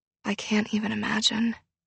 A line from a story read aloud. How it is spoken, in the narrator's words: Pip said quietly